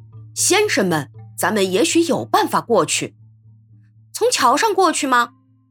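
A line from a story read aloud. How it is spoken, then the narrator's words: Asking. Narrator (Chinese): 一个旅客问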